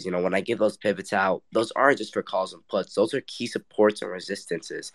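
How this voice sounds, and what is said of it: Sick, congested-sounding voice. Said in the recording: “sorry my voice is like this. I'm actually have a little cold right now.”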